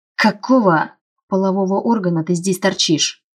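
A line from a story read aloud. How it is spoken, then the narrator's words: Growled, man. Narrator (Russian): зарычал мужчина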